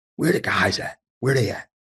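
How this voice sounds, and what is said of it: Imitates another person's voice. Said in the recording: “my little Billy Donovan impression.”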